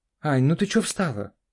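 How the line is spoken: Calling out. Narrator (Russian): окрикнула ее Карина

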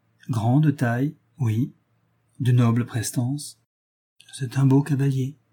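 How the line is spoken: Said weakly. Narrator (French): dit faiblement la marquise

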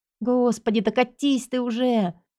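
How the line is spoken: Silent inner wail. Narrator (Russian): взвыла мысленно

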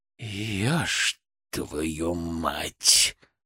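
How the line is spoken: Growled. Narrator (Russian): прорычал Всеволод Богданович

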